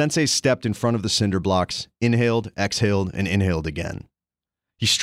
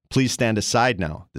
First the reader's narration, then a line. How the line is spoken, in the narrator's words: the sensei said